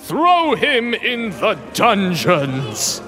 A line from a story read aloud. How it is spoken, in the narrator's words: the emperor bellowed